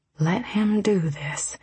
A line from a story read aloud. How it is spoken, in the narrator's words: she whispered almost silently